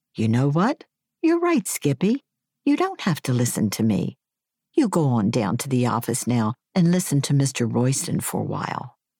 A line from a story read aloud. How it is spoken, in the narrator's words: I was able to smile sweetly and say